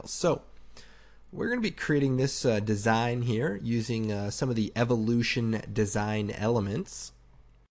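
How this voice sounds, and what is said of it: Slightly raspy voice. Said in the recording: “my voice is a bit raspy. ... I'm just getting over a cold”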